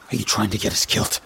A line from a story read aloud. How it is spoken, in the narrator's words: Brock snapped back